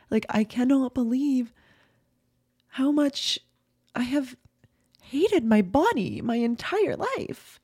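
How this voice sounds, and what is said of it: Tearful, emotional crying voice. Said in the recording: “I'm getting emotional right now ... I just started crying ... Sorry guys, I'm crying.”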